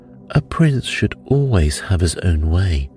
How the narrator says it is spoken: said Pepin

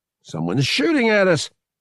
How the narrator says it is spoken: he yelled from the bridge

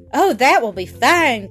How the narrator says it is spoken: cried the goat

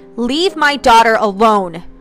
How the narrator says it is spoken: Ronald shouted

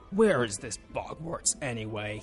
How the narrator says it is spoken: He snarled

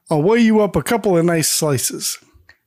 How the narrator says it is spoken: Sam just laughs and says

